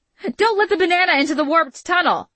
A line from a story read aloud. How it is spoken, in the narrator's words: Gia yelled